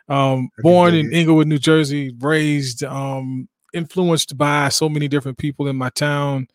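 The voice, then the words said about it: New Jersey accent. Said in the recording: “from a town in Inglewood, New Jersey, not too far from New York. So that's where the accent from... everybody up there, north to up top, is going to talk like this”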